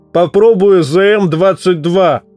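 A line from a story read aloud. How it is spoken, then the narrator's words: Roaring over noise. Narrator (Russian): проревел сквозь нарастающие заряды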